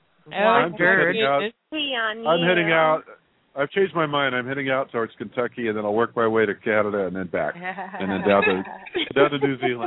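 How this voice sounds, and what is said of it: Southern American accent. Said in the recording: “he's got that beautiful southern accent”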